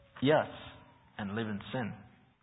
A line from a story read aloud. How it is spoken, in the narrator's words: someone else who knew the man replied sadly